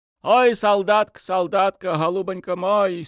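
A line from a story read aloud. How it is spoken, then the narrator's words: Woman sobbing through tears. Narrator (Russian): Сквозь слезы, навзрыд гласит бабенка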